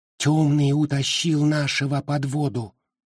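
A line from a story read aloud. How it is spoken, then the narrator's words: Dejected whisper. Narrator (Russian): упавшим голосом прошептала Мали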